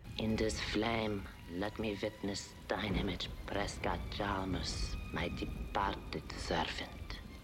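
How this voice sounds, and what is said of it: Really bad put-on fortune-teller accent. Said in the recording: “dressed up in her medium garb. And saying all these words in this really bad accent.”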